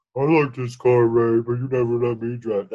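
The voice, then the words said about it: Imitates a TV character's voice. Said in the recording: “That's my impression of Robert.”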